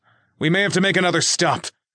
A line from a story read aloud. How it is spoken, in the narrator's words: Nick shouted